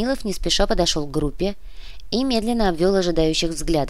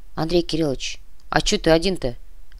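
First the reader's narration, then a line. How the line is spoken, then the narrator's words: Disapproving grumble. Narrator (Russian): пробурчал Палыч, неодобрительно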